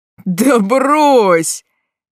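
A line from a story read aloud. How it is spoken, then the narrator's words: Shouting. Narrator (Russian): заорал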